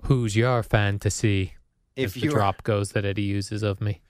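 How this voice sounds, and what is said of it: Robotic voice. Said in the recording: “you do say that weird... you almost sound like a robot... I was doing my robot voice.”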